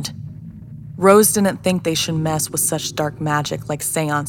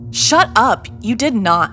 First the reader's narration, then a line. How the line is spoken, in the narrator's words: Blake cried